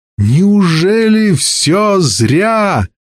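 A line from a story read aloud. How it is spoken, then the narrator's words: Doomed anguished shout. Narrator (Russian): Дикая тоска накатила на Кассия, и он обреченно закричал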